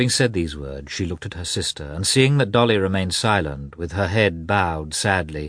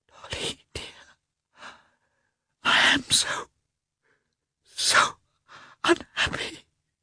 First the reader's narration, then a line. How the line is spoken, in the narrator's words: she whispered guiltily